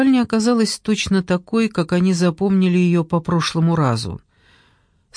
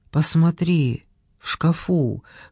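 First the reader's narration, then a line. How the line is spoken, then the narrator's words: Whispered command. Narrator (Russian): шепотом велела она Джордану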